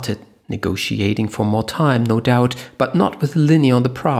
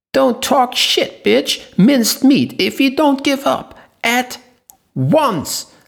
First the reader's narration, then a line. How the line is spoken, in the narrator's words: Linny interrupted her, screaming